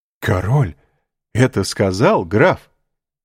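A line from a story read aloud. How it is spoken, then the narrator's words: Admiring exclamation. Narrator (Russian): воскликнул восхищенный Вильфор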